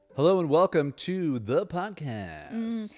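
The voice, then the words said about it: Radio announcer voice. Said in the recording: “Here's my radio voice, haven't used it in a while.”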